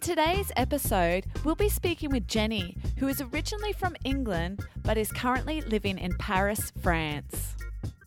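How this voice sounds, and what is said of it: Australian accent. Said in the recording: “that's probably my Australian accent ... I used my Aussie accent to say France”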